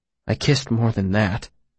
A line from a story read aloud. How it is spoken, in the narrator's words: he said